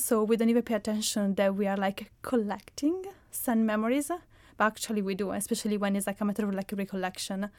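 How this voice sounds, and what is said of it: Italian accent. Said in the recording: “which is in Italy, which is where I'm coming from, as you can spot from my accent”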